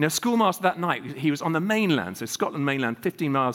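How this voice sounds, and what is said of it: Usual voice. Nothing is said of it.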